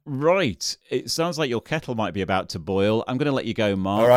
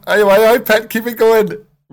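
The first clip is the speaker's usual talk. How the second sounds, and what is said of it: Sarah Millican accent impression. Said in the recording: “Sarah Millican shouting out, "You're going great," ... I love the accent. I was about to do that myself.”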